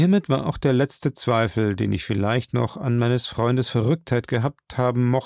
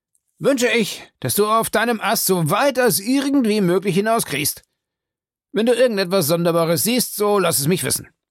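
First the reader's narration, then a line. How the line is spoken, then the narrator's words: Very excited call. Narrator (German): rief Legrand, ersichtlich sehr aufgeregt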